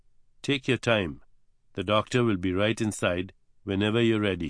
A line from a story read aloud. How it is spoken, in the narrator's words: she murmured